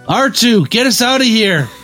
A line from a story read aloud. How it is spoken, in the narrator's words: Luke yelled into his communicator